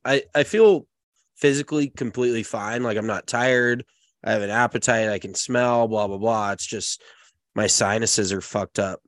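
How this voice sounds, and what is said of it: Raspy, stuffy congested voice. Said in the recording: “you can probably tell by my voice, it's maybe a little raspy and a little stuffy”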